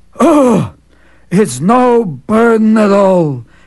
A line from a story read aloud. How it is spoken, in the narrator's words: he replied wearily